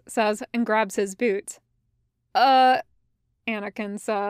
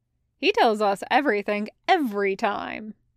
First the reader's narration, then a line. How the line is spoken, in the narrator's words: Vaughn says cheerfully